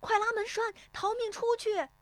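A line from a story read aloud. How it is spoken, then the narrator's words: Shout. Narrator (Chinese): 有人喊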